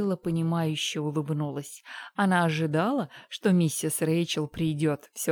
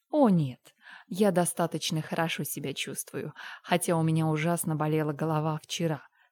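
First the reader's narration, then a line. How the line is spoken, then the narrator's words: Plain. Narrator (Russian): сказала она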